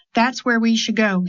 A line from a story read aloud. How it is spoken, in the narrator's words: he said